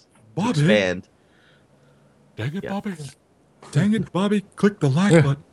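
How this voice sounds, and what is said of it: Deliberately bad voice impression. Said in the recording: “That's a terrible, terrible impression.”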